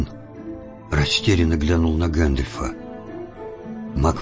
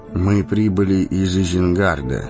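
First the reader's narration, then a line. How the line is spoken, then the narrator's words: Plain. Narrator (Russian): сказал он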